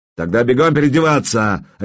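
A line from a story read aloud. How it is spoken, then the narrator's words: Barked. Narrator (Russian): рявкнул я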